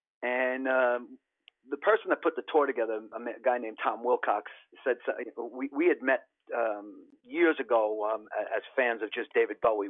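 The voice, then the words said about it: Genuine New York accent. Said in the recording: “my genuine New York accent”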